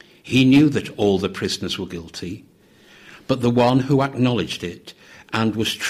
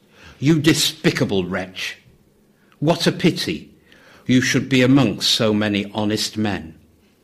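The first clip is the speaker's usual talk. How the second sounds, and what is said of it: Loud, scolding voice. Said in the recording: “said in a loud voice”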